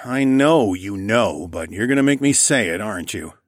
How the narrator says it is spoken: I groaned

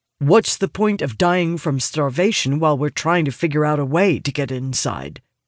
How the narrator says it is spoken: Annoyance creeps into his voice, his tone carrying a hard edge

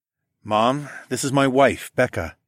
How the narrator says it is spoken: I grinned

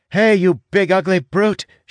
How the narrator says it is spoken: she shouts

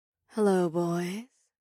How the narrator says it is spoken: a seductive voice purred

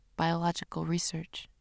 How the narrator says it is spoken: He pauses, then mutters to himself

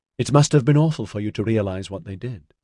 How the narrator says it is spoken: she said

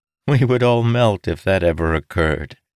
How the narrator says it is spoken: she said, chuckling

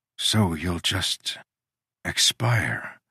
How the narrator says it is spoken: I whispered

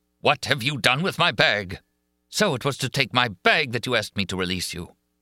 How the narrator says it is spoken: The voice repeated angrily

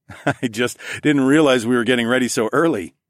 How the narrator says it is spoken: I chuckled

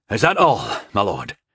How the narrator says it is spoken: asked anxiously

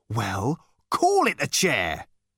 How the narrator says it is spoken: he said testily

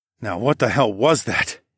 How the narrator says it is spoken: I muttered

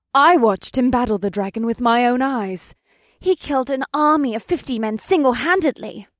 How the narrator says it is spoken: Alyssa added, with hearts burning brightly in her emerald eyes

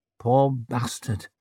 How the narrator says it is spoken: muttered Glaward, with the sympathy of one big lackluster man for another

